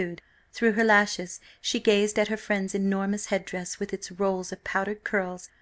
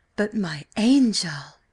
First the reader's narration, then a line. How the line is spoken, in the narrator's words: exclaimed Lady Fanny